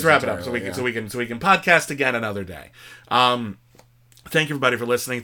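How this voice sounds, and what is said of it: Voice starting to go hoarse. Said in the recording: “I'm starting to lose my voice a bit.”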